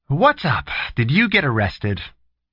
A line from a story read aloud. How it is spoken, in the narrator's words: she asked hopefully